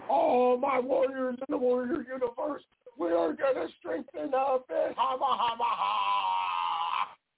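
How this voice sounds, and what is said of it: Ultimate Warrior promo impression. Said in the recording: “the ultimate warrior cut the best promos ... that's not a bad little impersonation right there”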